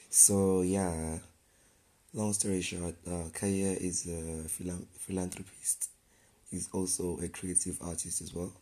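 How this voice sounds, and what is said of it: Hazy, sick-sounding voice. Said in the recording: “my voice is a bit hazy. I'm under the weather.”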